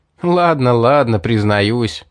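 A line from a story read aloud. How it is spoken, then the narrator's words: Laughing. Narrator (Russian): рассмеялся я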